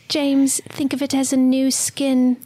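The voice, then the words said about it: Weak put-on British accent. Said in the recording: “Should we do Mia Goth's voice? ... my British accent is like not very good anymore”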